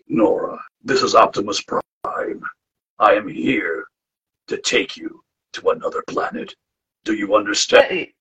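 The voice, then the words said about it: Imitates Optimus Prime character voice. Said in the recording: “I can do the voice of Optimus ... I can do a better job than Ron Perlman”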